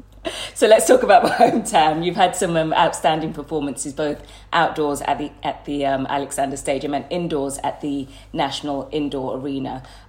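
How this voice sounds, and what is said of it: Birmingham Brummie accent. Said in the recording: “I'm from Birmingham. I've got Bummy accent.”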